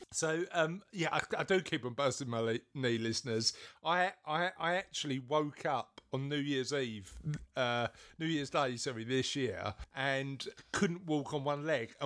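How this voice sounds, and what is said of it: British accent. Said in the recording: “There it goes with the British accent.”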